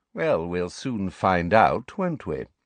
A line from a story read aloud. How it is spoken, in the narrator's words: said Snape smoothly